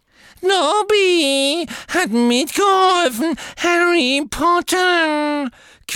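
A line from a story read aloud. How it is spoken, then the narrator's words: Squeaking. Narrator (German): quiekte er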